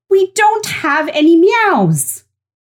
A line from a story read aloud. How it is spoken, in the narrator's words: She mustered up the courage and said loudly